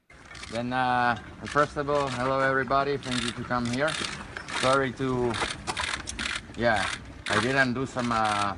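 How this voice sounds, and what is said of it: Speaks with a distinctive accent. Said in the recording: “I love this guy's accent.”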